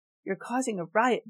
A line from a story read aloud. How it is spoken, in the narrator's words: John yelled